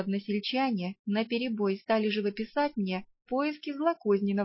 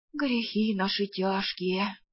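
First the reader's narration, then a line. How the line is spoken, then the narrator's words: Vague sigh, peasant man. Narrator (Russian): неопределенно вздохнул мужик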